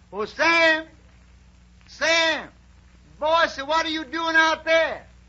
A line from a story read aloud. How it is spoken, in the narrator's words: he hears a voice hollers